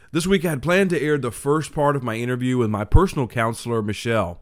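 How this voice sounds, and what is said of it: Voice rough from a cold. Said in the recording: “My apologies in advance if my voice is not quite what it normally is. I've been getting over a bit of a cold”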